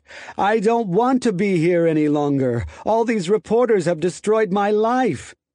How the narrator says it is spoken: Lopez wailed in English

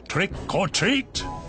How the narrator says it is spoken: they yelled

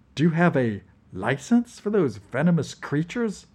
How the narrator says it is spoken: Edna asked coolly

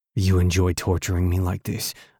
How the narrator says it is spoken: I asked in a growl

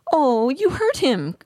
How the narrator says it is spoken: Nefti cried

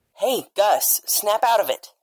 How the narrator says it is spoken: shouted Isabel through the pilot's headphones

